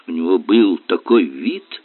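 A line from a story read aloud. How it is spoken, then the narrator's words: Whisper. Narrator (Russian): прошептала Марселла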